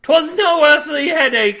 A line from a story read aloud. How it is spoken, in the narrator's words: Milby cried